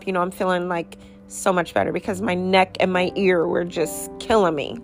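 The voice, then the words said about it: Slightly scratchy, recovering voice. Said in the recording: “I'm still kind of trying to get my voice back. My voice was gone for a while. You know, as you can tell, it's a little scratchy”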